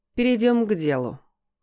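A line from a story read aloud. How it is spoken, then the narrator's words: Cold tone. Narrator (Russian): холодно произнесла женщина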